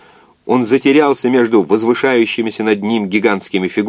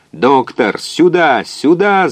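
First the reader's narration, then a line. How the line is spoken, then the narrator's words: Yelled. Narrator (Russian): заорал он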